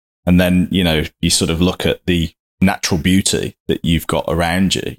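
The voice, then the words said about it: Speaks with a non-American accent. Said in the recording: “without hearing my accent first ... oh, wait, lovely to hear your accent. Where are you from?”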